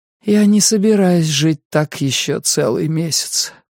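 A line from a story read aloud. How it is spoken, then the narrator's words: Hoarse rasp. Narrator (Russian): прохрипела она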